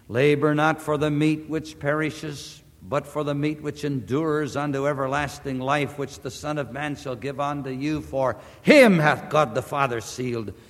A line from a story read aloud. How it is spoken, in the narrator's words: he tenderly warned